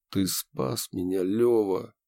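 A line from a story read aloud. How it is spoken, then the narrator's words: Quiet but clear. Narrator (Russian): Тихо, но четко сказал я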